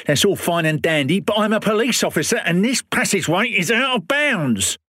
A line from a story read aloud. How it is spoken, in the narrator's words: shouted Pym